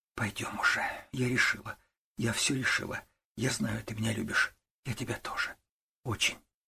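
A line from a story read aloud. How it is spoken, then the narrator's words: Quiet speech. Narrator (Russian): Катя ... тихо сказала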